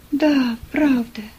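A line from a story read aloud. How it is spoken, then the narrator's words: Sad. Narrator (Russian): грустно сказала Ева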